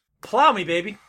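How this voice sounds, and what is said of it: Yelling. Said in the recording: “You're yelling”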